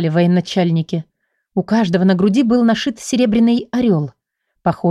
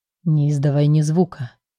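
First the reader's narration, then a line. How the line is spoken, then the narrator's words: Barely audible man's whisper. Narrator (Russian): касаясь губами моего уха, еле слышно проговорил мужчина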